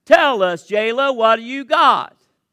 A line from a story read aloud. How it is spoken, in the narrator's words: the team shouts back